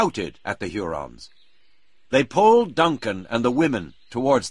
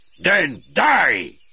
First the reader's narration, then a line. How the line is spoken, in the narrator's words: shouted Magua